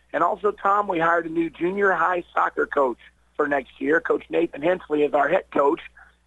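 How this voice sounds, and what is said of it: Raspy, allergy-affected voice. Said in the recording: “the more I talk, the more raspy you can hear my voice getting. Those seasonal allergies are kicking in here ... I don't really have the voice for radio”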